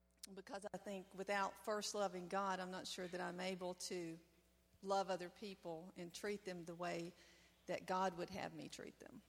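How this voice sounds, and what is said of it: Tennessee accent. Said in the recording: “this accent is from Tennessee”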